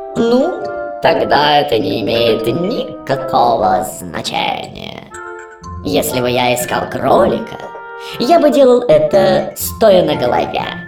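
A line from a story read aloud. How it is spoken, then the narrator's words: Cat purring. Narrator (Russian): мурлыкнул кот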